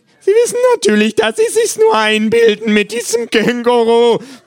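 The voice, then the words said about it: Shrill character voice. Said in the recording (German): “sagt der Psychiater schrill”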